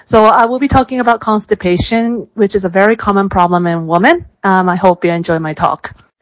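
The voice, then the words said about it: American English accent. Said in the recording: “as you can see from my American accent.”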